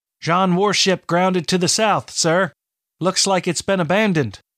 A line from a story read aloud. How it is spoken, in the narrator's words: Bryn called out from the rigging